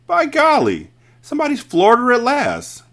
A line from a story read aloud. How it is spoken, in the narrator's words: cried one of the men, grinning